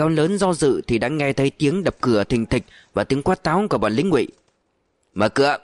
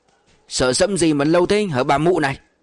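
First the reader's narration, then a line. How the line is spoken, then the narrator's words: Thuggish barking shout. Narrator (Vietnamese): Có tiếng quát táo ở trên sân với giọng nói côn đồ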